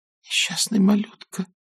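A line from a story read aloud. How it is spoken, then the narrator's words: Whisper. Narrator (Russian): прошептала Мелани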